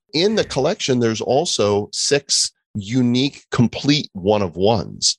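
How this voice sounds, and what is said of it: Usual voice. Nothing is said of it.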